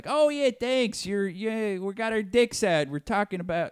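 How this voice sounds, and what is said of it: Put-on Chicago accent. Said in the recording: “It's a Chicago accent.”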